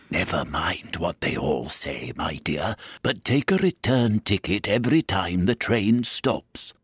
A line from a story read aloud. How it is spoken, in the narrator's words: the gentleman dressed in white paper whispered in her ear